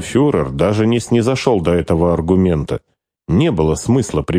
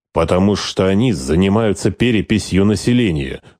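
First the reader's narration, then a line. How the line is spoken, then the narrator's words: Cold anger. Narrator (Russian): холодно вскипел Скорцени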